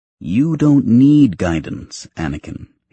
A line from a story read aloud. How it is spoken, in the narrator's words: he said